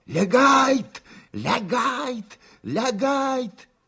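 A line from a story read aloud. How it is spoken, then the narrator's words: Hoarse shouting. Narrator (Russian): старшина забыл вдруг все немецкие слова и только хрипло кричал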